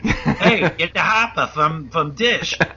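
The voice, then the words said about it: Imitated Boston accent. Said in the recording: “some Boston dude”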